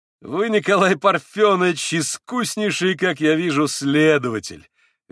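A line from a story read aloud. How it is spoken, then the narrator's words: Sudden merry laughter. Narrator (Russian): Весело рассмеялся вдруг Митя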